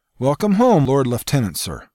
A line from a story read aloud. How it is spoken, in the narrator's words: Sergeant Morris barked with excitement rising in his voice